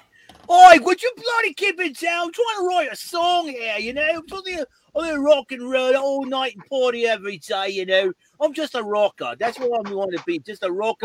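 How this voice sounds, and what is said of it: Messed up mixed British-isles accent. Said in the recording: “a rocker with a messed up accent. Sometimes I speak Scottish or Irish or even English or even Australia or even do a surfer do”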